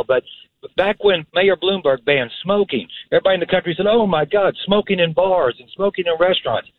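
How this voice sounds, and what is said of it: Kentucky accent. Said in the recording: “I am originally from Kentucky with this accent, as you can tell”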